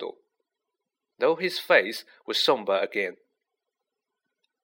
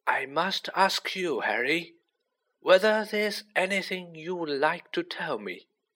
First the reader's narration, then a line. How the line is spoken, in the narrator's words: he said gently